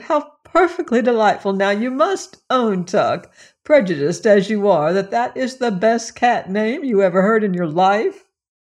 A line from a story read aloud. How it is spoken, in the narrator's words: exclaimed